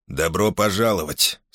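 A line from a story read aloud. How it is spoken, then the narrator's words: Dry, curt. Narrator (Russian): сухо проронил Хемфил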